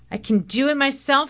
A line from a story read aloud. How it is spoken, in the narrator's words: I scream at Mom